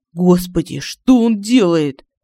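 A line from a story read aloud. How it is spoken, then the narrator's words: Horrified exclamation. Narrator (Russian): В ужасе воскликнул Семен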